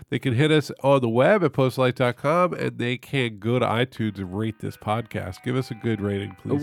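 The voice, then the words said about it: Rough voice from a cold. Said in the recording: “my voice is kind of rough with this cold”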